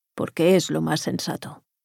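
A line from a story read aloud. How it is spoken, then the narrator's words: Plain reply. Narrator (Spanish): contestó Cepeda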